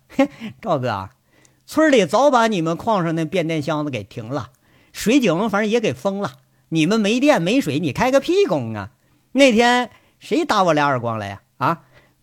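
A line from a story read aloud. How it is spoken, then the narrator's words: Mocking taunt. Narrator (Chinese): 取笑说了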